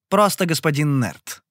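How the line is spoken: Clipped, precise. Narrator (Russian): отчеканил я

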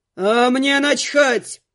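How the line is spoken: Roared. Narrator (Russian): взревел Глун

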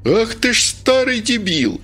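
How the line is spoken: Screaming at top of lungs. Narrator (Russian): заорала во все горло

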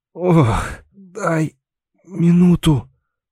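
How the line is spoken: Strained, dry-mouthed. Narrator (Russian): выдавил он пересохшими губами

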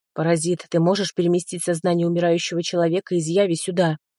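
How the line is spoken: Growled. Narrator (Russian): прорычал я вместо приветствия

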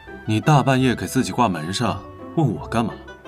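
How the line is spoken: Cool, flat. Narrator (Chinese): 李寻淡淡道

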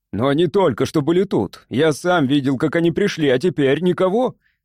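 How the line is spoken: Shouting man. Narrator (Russian): закричал управляющий

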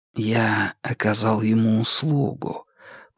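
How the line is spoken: Whisper. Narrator (Russian): прошептал Ду

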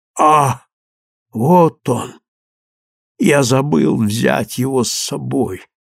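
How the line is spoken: Weak voice. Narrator (Russian): слабым голосом проговорил

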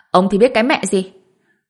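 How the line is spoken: Angry. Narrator (Vietnamese): Lưu Tử Vân tức giận

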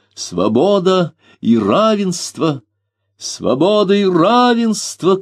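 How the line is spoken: Shouted. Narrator (Russian): крикнул Фернан

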